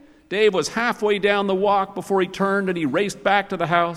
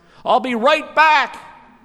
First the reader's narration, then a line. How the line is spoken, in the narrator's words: yelled into the silence